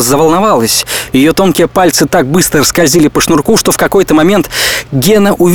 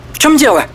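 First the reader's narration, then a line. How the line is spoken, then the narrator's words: Sharp question. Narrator (Russian): резко спросила Фарида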